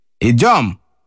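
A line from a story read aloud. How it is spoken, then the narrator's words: Sharp. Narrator (Russian): резко сказал Однорукий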